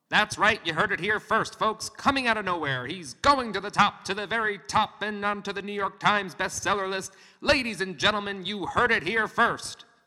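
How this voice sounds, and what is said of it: Old-time baseball announcer voice. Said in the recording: “my old-time baseball announcer voice”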